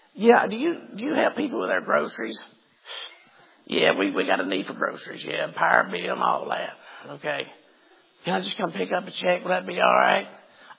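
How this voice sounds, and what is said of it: Impression of a caller asking for handouts. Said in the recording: “Let me get my best impression of them, okay? Listen to what I'm doing.”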